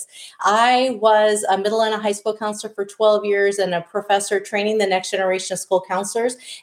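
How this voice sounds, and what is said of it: Wisconsin accent. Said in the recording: “this is a Wisconsin accent ... this is what a Wisconsin accent is”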